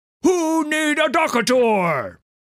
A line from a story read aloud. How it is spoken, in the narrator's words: yelled at people